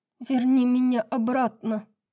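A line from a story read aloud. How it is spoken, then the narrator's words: Tearful woman demanding. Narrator (Russian): плачущим голосом требовала женщина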